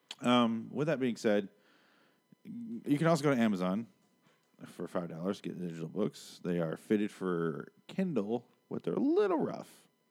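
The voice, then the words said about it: Strained, fading voice. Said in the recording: “I'm losing my voice, apparently. I have been doing podcasts all day.”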